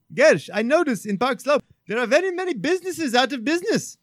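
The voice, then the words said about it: Imitated Nepali-accented English. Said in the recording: “Anuj, who's from Nepal ... that was not an offensive accent. That's exactly how he talks.”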